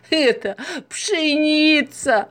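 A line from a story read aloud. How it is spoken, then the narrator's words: Explaining after laughing. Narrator (Russian): Закончив смеяться, объяснила она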